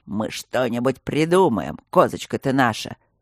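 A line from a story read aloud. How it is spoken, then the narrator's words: Ominous creaky voice. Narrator (Russian): зловеще проскрипел Ипполит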